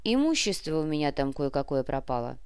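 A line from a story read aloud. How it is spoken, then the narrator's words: Ingratiating, insinuating. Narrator (Russian): вкрадчиво сообщил Нав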